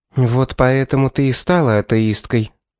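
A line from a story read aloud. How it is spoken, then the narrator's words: Calm, cutting. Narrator (Russian): спокойным тоном проговорила Клариса, пресекая ее смех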